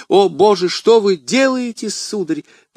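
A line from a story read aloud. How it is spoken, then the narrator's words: Exclaimed. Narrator (Russian): воскликнула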